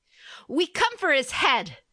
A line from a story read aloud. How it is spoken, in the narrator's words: she cried